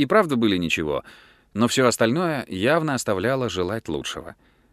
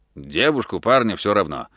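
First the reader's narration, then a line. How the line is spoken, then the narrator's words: Impatient mutter. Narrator (Russian): нетерпеливо пробурчал Фрэнк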